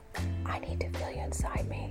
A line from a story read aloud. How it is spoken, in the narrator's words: whispered